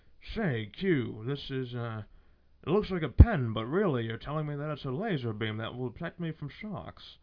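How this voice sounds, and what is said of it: Poor British accent, James Bond. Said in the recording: “the most hick-ass, retarded British accent you ever heard”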